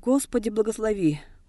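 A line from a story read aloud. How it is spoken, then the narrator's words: Women's frightened cry. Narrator (Russian): в испуге крикнули женщины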